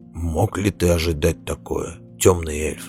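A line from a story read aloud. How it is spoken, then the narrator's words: Soft question. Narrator (Russian): мягко спросил сверхнеблин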